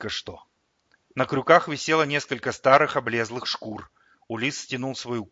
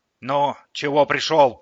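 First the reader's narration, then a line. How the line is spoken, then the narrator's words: Grumbled. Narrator (Russian): проворчала она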